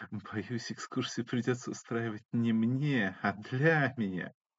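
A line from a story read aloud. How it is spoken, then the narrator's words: Young man chuckling. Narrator (Russian): хохотнул парень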